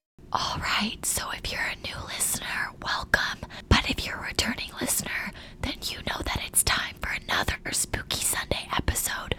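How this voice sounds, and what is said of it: Whispering softly. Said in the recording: “we're whispering, ... our ASMR episode”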